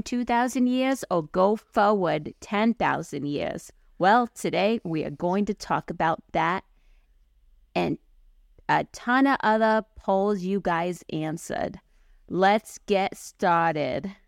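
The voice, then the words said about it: Put-on New York accent. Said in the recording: “Full on New Yorker there on me. ... New York Jew ... I've perfected that accent”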